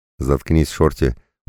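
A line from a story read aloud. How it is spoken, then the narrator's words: Tired. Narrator (Russian): устало сказал он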